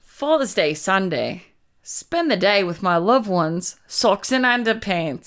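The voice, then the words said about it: Put-on Australian accent, fairly good. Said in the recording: “can you say an Australian accent? ... That's pretty good.”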